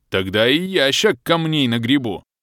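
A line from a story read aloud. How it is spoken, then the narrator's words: Roar. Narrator (Russian): взревел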